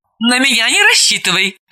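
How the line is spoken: Laughing. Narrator (Russian): рассмеялась Далила

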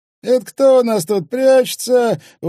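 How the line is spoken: Exclamation. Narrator (Russian): воскликнул

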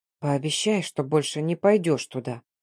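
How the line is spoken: Reluctant whisper. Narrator (Russian): Скрипя душой прошептал

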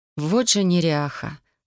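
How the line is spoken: Exasperated exhale. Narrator (Russian): в сердцах выдохнула я

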